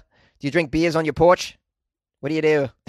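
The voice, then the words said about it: Poor put-on Australian accent. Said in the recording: “That's a shitty Australian accent. I like to try my Australian accent”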